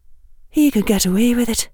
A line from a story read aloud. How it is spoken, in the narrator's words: Isabel whispered back to her